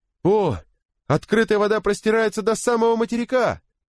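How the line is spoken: Shouted by a sailor. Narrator (Russian): прокричал матрос по имени Берри со своего места на веслах

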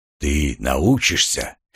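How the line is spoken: Soft whisper. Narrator (Russian): мягко прошептал голос

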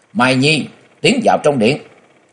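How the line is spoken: Loud shout. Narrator (Vietnamese): Bà ... miệng quát lớn

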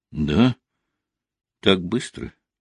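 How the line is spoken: Girl, now calm. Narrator (Russian): уже спокойным тоном произнесла девушка

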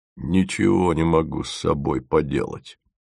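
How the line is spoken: Muttering. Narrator (Russian): забормотал он

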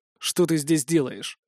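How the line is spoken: Rude curt remark. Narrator (Russian): грубо бросил

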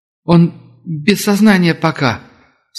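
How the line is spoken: Sobbing woman. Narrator (Russian): всхлипнула женщина

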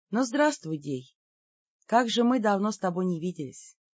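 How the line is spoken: Relieved inner voice. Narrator (Russian): облегченно вздохнула и мысленно сказала

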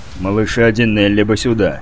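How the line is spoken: Strained mumble. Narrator (Russian): пробурчал Витковский, едва справляясь с управлением

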